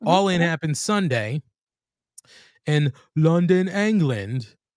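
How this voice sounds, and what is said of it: Deliberately bad British accent. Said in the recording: “that's a terrible British accent. ... your British one was terrible. ... It was supposed to be terrible.”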